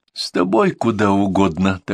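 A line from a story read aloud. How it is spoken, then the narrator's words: Sleepy reply. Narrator (Russian): так же сонно отвечает Беба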